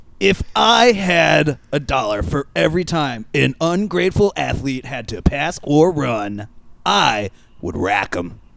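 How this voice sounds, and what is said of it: Bad, congested-sounding imitation of another person. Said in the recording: “robotic Jim Rome ... bad impression of Jim Rome where the impressionist has a cold ... Sounded like Alex Jones does Jim Rome”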